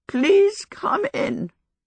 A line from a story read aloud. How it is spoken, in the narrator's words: she said, a little croakily